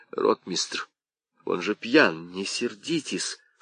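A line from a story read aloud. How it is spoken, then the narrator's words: Whispered. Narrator (Russian): шепнул он ему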